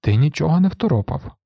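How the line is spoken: Sad interruption. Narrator (Ukrainian): сумно перебив його Грегор

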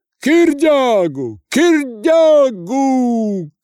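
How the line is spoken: Crowd shouting. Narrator (Russian): кричала толпа

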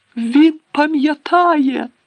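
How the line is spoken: Shouted. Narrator (Ukrainian): закричав Дідалус Дігл

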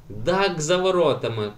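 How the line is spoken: Shout. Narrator (Ukrainian): крикнув Ейнар

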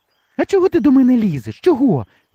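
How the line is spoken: Exclaiming, female. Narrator (Ukrainian): вигукнула Гребенючка

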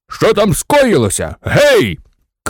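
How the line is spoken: Suspicious general shouting. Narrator (Ukrainian): крикнув генерал, якому скрізь вважалися вороги

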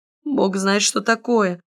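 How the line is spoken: Sighing. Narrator (Russian): вздохнул

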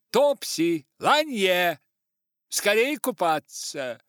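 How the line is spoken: Shouted. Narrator (Russian): тут же крикнула

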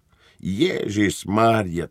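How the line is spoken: Quiet dismayed sigh. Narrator (Ukrainian): тихенько зітхнув капрал, побачивши, що після ретельного ковтка пів пляшки як не було

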